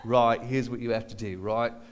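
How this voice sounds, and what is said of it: Poor Australian accent impression. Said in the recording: “he was from Australia ... do a terrible impression of him”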